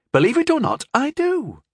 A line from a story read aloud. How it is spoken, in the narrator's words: she said excitedly